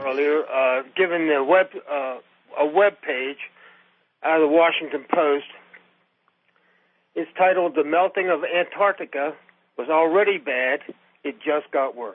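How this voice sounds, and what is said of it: Congested, sick-sounding voice. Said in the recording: “Pardon my voice. I've got a bad cold”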